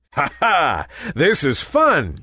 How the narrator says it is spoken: chuckled Nimbus

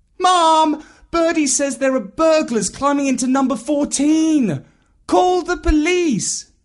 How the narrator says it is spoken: he immediately called out

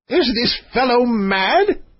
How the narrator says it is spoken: bawled the king

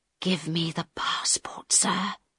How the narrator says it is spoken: Harold whispered very quietly

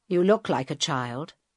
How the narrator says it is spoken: Carl said

